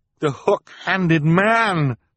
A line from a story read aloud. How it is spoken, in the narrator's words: Klaus cried